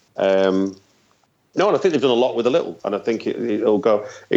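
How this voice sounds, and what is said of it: Manchester accent. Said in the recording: “doing Manchester ... as anyone can tell from accent. That's where I'm from.”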